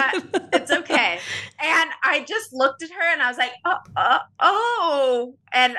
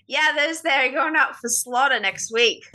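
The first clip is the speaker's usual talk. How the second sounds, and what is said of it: Put-on Australian accent. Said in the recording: “That was more of an Australian accent.”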